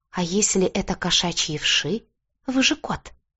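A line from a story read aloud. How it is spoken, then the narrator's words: Whispered. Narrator (Russian): блондинка прошептала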